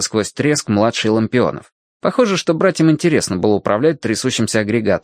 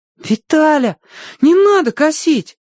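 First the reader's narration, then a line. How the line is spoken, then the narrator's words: Pleading. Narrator (Russian): взмолился Тенька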